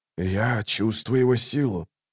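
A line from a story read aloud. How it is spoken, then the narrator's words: Whisper. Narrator (Russian): прошептал Орфантал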